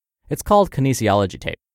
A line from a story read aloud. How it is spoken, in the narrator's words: I replied quickly